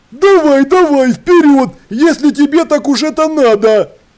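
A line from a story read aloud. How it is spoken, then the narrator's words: Shouted. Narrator (Russian): крикнул декан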